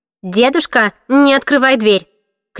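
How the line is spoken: Shouting. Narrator (Russian): крикнула я

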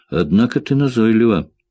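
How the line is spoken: Sighing. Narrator (Russian): вздохнул Джек

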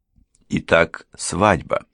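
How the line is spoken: Plain. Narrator (Russian): сказала мисс Куинтон

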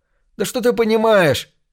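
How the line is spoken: Yell. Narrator (Russian): заорал Джон

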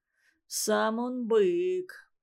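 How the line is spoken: Grim mutter. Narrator (Russian): мрачно буркнул Иван Иванович

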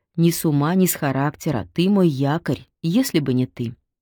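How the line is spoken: Quiet, close to ear. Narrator (Russian): сказала она, и добавила почему-то тихо, в самое его ухо

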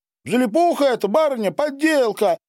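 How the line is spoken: Old couple shouting together. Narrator (Russian): в один голос закричали старик и баба

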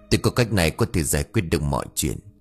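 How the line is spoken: Slightly worried whisper. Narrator (Vietnamese): ông thầy Tám cũng có chút lo lắng, thì thầm

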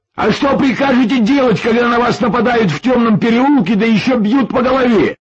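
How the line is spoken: Nearly shouting, annoyed. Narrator (Russian): Почти закричал Паша, досадуя на себя и счастливчика

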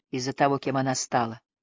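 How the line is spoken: Quiet. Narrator (Russian): тихо ответил Линли

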